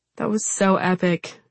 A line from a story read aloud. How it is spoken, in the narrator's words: she murmurs